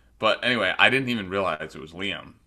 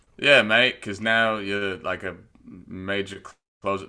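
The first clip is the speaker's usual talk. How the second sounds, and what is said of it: Failed Australian accent, sounds British. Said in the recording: “your Australian accent ... That's British. Sorry, I messed up the accent.”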